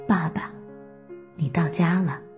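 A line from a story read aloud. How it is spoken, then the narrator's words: Tender whisper. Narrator (Chinese): 用我此生最温柔的声音附在他耳边，跟他说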